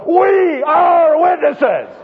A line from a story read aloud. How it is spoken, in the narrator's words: the whole crowd stands up, yells at the top of their voice